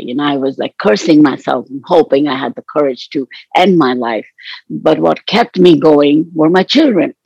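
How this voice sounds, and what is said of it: Voice cracking with emotion. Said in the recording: “Sorry, my voice is cracking a bit.”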